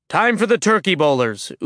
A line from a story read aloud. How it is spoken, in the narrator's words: Utgard Loki shouted